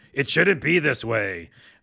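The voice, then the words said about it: Imitates another person's voice, raspy. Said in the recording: “pretty good impression... you're much more raspy than you probably remember”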